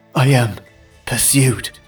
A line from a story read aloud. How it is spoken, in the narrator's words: gasped the prince